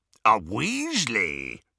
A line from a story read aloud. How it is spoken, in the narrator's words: rasped Greyback